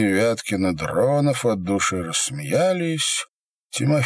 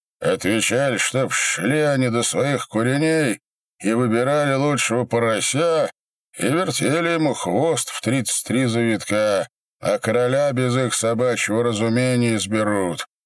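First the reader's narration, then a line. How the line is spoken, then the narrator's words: Muffled, hollow reply. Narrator (Russian): ответил глухо раздай беда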